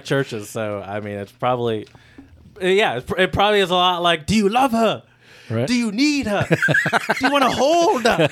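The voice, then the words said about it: Eddie Murphy as Donkey impression. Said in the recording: “Eddie Murphy in Shrek... As donkey... That's a pretty good impression.”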